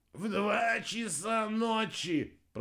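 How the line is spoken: Moaning. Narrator (Russian): простонал Рикки

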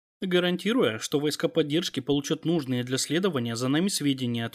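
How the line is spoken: Plain. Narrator (Russian): ответил я

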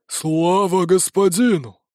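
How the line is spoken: Unison inhuman croaking. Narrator (Russian): В унисон хрипят голосом, лишь отдаленно напоминающим человеческий

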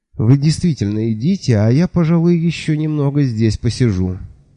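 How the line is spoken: Sigh. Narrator (Russian): вздохнул я

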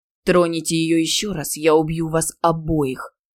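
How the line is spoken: Growl. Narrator (Russian): прорычал он

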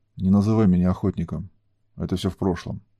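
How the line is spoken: Sad. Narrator (Russian): проговорил он грустно

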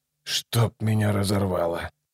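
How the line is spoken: Muttered. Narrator (Russian): пробормотал Ном

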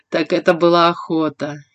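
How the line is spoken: Laughing. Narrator (Russian): я рассмеялась

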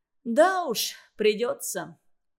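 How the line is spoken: Sighed. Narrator (Russian): вздохнул Олег

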